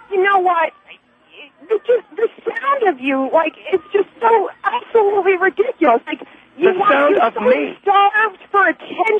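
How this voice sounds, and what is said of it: Screeching East Coast accent. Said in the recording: “your East Coast accent that is so screeching and nauseating”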